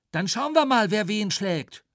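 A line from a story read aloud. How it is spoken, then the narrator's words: Calling out. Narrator (German): rief er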